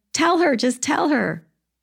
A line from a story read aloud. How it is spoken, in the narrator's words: to Ray, you'd be yelling